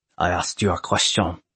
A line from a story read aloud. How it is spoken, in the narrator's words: he hissed